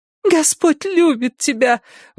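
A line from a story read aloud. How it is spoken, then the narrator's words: Sparkling little voice. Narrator (Russian): воскликнула она своим искристым голосочком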